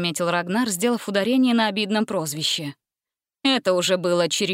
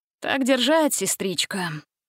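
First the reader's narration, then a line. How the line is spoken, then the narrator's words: Sighing. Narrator (Russian): вздохнул Ганзель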